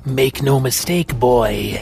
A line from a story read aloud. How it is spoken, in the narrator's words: Ebony growled deeply in warning through a manipulated voice transmitter